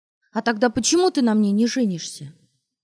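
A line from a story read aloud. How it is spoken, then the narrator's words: Ringing shout. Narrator (Russian): звонко выкрикнула она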